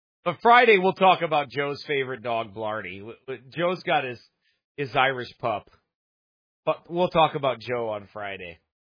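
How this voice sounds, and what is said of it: Strained voice. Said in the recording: “my voice is still strained ... It's a little strained, I can tell ... I gotta quit yelling”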